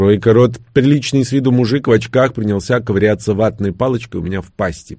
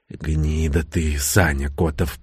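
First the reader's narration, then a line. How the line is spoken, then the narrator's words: Hoarse wheeze. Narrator (Russian): просипел я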